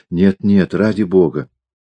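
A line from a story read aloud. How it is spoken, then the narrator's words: Girl whispering. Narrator (Russian): Девушка шепнула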